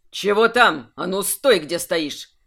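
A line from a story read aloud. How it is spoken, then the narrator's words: Suspicious bark. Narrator (Russian): рявкнул Нолдец, явно заподозривший неладное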